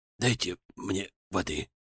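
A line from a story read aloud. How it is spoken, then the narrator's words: Detainee's hoarse plea. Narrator (Russian): хриплым голосом попросил задержанный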